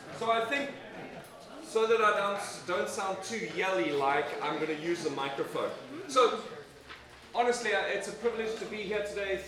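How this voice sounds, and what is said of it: South African English accent. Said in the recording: “originally South Africa. ... By way of England. ... please bear with my accent.”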